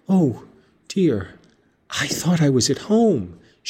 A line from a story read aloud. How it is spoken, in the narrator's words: she sighed